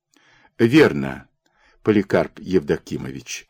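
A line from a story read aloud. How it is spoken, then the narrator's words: Sighing, young creature. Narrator (Russian): вздохнул молодой ворчук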